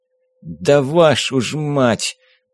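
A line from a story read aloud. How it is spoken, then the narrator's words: Pained groan, muffled. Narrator (Russian): простонал агент, пряча раскалывающуюся от боли голову под одеяло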